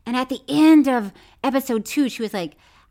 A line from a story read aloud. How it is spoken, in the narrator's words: I snapped